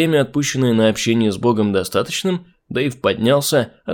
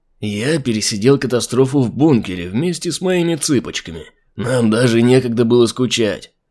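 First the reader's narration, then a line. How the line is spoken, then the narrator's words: Through gritted teeth. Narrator (Russian): также сквозь зубы ответил Дэйв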